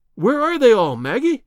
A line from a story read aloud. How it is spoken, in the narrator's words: I cried